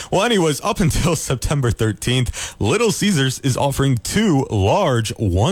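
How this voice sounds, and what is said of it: Usual voice. Nothing is said of it.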